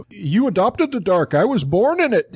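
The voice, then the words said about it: Bane impression. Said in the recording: “That was my Bane impression.”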